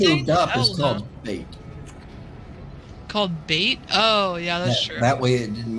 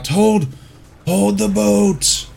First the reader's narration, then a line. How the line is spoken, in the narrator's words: rasp